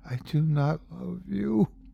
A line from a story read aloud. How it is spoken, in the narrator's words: she whispers back